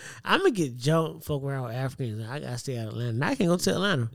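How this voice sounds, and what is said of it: Usual voice. Nothing is said of it.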